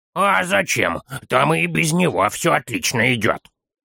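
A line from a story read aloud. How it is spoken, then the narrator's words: Grumbling child. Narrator (Russian): проворчал малыш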